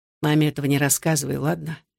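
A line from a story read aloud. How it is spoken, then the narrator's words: Quiet, gentle. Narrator (Russian): тихо сказал Александр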